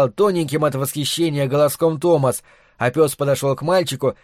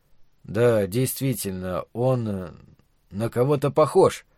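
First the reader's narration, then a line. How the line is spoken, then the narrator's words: Mumbling. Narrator (Russian): промямлил отец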